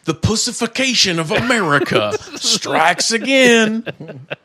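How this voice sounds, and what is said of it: Put-on Southern US accent. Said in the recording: “I'm giving him a southern accent.”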